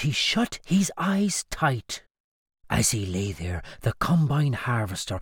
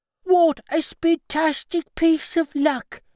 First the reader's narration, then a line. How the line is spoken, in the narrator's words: he cried